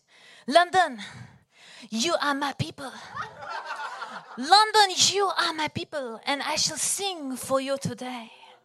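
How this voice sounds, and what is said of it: Put-on French-Canadian accent. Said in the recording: “my French-Canadian accent ... in my French-Canadian accent”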